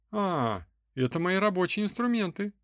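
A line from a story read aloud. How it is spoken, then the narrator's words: Cheerful retort. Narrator (Russian): бодро парировал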